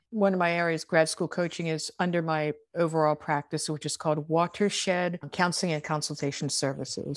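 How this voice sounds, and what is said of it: Baltimore accent. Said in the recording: “my Baltimore accent ... I'm actually saying water. Or water.”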